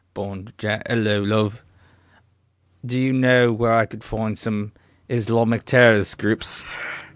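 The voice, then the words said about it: Put-on British accent. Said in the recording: “let me find my British accent. ... No, that's a little too cockney.”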